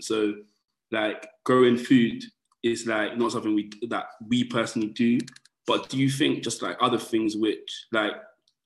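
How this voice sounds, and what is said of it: London accent. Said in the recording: “I'm from London, you can probably tell from the accent”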